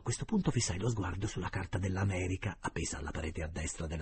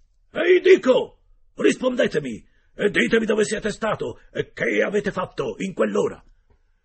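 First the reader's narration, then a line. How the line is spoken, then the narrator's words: Yelling even louder. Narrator (Italian): urlò ancora più forte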